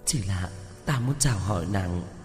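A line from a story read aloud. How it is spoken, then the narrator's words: Frightened. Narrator (Vietnamese): Bà sợ hãi mở miệng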